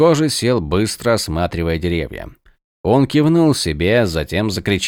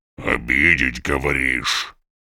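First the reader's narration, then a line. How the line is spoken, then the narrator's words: Orc growling. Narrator (Russian): прорычал орк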